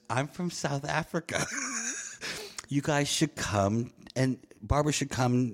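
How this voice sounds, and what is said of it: South African accent. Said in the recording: “With a South African accent.”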